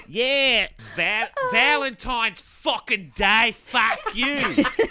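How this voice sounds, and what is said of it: Bad put-on Cockney-style accent. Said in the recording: “That's probably a bad accent. ... That's probably like closer to New Zealand. ... There was a Kiwi, there was an Australian thing, a Cockney.”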